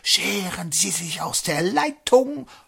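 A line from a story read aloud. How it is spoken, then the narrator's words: Ghostly breathy voice. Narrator (German): Das Gespenst haucht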